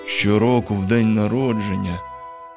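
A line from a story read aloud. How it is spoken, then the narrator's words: Sad mutter. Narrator (Ukrainian): сумно пробурмотів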